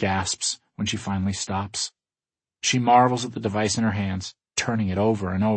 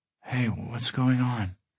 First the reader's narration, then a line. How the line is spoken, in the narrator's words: Kat murmurs sleepily from the back seat